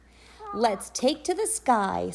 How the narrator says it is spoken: Sky exclaimed

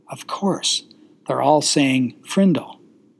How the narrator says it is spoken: She was puzzled for a second, but then she said softly

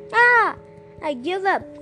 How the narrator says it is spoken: called out the pig as Keshub spanked its behind

